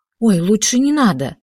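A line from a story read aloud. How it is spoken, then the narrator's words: Frightened exclamation. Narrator (Russian): испуганно воскликнула Алиса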